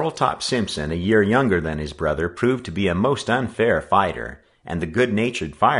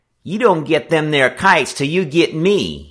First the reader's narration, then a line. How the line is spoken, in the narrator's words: he challenged in a piping little voice